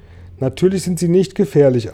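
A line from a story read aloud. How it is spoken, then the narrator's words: Plain answer. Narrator (German): antwortete James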